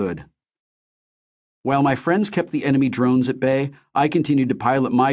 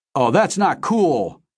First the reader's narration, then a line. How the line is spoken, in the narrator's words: Deal shouted